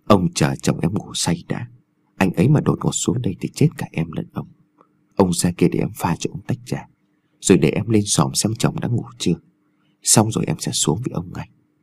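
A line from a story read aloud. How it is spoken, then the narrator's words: Soft, coaxing murmur. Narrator (Vietnamese): dùng giọng nhẹ nhàng thỏ thẻ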